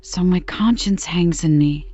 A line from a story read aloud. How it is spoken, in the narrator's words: he groans